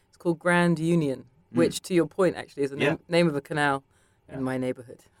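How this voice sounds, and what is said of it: British accent with American influence. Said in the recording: “New York has seeped in. Even listening to myself now, I can hear, even my accent is slipping”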